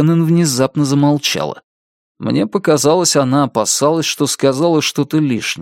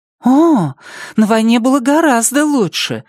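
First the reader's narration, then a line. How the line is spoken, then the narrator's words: Excited exclamation. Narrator (Russian): взволнованно восклицает она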